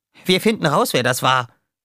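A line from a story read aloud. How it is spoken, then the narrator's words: Called out. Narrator (German): rief Roughshot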